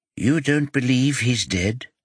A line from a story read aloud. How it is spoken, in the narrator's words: Orlean asks calmly